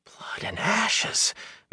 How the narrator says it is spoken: Matt said faintly

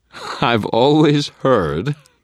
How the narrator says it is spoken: Thomas drawled, his voice loud enough to be heard by all, artfully projected

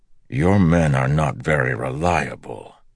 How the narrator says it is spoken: Perrin said with a growl

